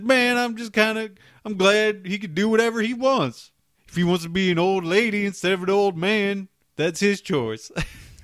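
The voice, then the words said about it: Imitates another person's voice. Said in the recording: “That is a terrible OJ impression.”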